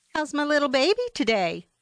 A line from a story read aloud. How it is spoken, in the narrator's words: called out by the grandmotherly waitress